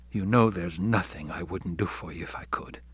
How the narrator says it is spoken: He lowered his voice to say

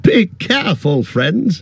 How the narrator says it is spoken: cried Gildor, laughing

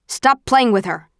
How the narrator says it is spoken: snaps Eric

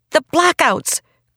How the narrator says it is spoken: cried Dune

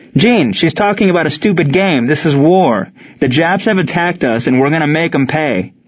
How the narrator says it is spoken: Ward shouted

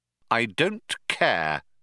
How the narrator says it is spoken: said Arthur coldly

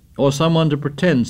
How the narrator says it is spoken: said Jack

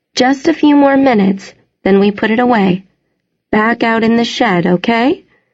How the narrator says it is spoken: She kept her voice bright

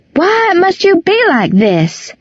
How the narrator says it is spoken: she would shout

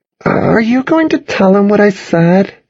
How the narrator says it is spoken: she asked nervously

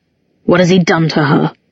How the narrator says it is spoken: Pangborn chuckled musically

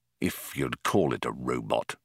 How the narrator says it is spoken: muttered Arthur

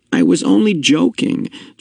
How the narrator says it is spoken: Jonas groaned

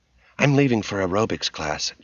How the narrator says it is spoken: Ginger said

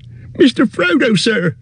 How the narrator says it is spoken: cried Sam, quaking

